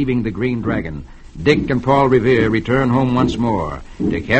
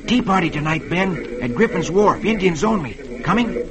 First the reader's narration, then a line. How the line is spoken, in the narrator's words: Dick whispers to him